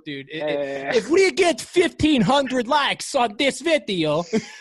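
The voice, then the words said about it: Put-on odd accent. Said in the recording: “What is that accent? Why is that the accent?”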